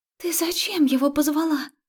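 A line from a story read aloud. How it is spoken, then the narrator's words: Agitated breathless exhale. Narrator (Russian): взволнованно выдохнула Марика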